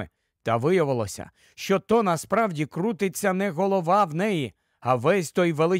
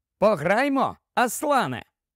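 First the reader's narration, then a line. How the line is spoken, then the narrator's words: Cheerful shout, young man. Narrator (Ukrainian): весело крикнув юнак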